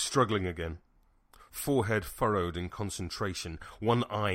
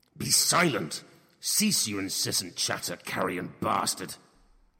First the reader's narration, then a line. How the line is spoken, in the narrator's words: He roared each word, his voice torn viscerally from his throat rather than spoken